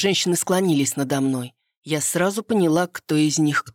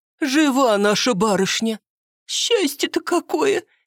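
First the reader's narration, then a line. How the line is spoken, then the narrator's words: Sobbing. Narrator (Russian): Спиридоновна всхлипнула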